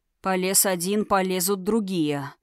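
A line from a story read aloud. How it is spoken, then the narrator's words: Muttering. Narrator (Russian): пробормотал Тхирайм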